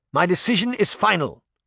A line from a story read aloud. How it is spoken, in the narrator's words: Charming shouted